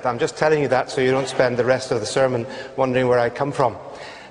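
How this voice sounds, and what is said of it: Northern Irish accent. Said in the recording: “now you have to get used to my Northern Irish accent.”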